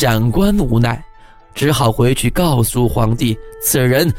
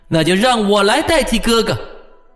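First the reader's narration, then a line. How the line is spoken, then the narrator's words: Shouting. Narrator (Chinese): 武征统赶到了，大叫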